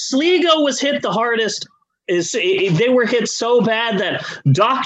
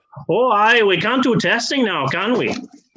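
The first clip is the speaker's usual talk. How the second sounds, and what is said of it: Bad put-on Irish accent. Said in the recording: “the Irish accent because I'm just really bad at it.”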